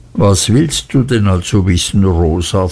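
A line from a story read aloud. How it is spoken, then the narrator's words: Plain question. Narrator (German): fragte Mrs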